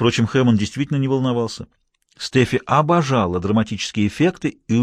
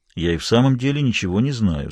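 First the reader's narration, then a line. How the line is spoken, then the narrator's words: Forced calm. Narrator (Russian): сказал как мог спокойно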